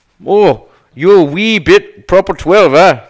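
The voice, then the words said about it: Deliberately bad put-on Irish accent. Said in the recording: “I do a terrible Irish accent.”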